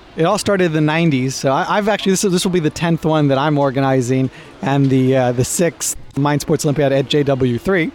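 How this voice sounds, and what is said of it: American accent. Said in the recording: “as you can tell by my accent, I'm American, Israeli-American. You wouldn't hear the Israeli part, but the American part, certainly.”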